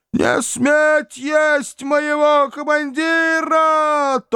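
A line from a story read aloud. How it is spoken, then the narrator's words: Thin wail, sergeant. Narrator (Russian): тонко взвыл вахмистр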